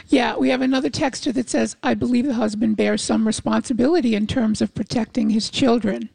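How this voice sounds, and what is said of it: Damaged voice, off its normal tone. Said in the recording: “We have a texter that's asking if my voice is permanently damaged... I have a stiff right vocal cord that is working its way back to normal tone”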